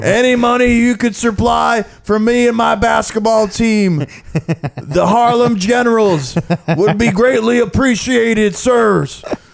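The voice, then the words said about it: New York subway panhandler voice. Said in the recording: “doing the homeless voice in New York City ... the people asking for money voice ... on MTA, and that's his character work.”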